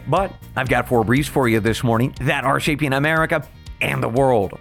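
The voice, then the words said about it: Slightly hoarse voice. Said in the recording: “I am still a little bit hoarse today”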